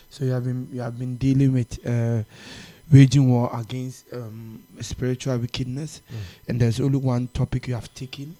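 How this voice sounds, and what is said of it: Slightly strained, hoarse voice. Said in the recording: “if you can hear a slight change in my voice ... I sense I'm losing my voice”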